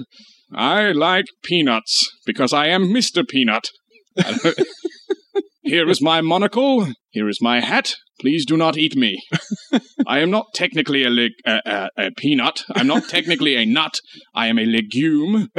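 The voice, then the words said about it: Mr. Peanut voice, mid-Atlantic-ish. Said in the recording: “that's probably more like a mid-Atlantic kind of thing”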